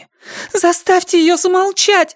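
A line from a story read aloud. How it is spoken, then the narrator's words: Sharp cry. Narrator (Russian): вскрикнула она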